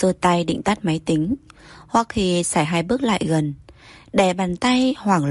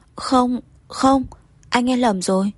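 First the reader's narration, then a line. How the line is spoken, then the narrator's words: Stammering. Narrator (Vietnamese): Cô lắp bắp nói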